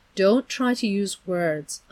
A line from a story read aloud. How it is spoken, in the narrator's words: Aunt Beast said soothingly